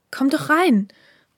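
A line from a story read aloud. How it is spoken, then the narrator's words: Calling out. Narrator (German): rief ihn die Stimme des heutigen Haruki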